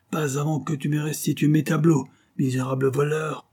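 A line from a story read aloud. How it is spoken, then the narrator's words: Furious yell. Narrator (French): hurla le duc de Alcantara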